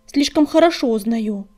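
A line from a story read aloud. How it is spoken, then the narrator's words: Snapping retort. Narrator (Russian): огрызнулась кошка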